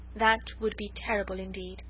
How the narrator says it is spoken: he said quietly

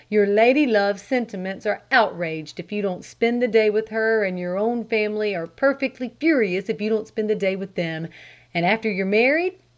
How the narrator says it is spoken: sighed

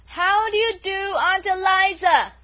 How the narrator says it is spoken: she repeated at the top of her voice

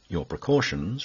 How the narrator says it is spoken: replied I

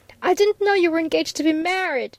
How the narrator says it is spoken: cried out passionately

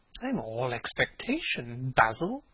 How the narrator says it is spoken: murmured his companion

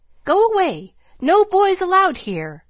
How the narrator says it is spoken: she asked, looking sharply over her spectacles

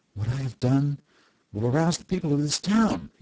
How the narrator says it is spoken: he declared excitedly

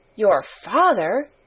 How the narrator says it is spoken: gasped Mary

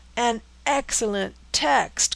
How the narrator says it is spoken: cried the dragoons

